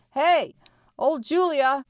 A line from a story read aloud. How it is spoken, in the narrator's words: He yelled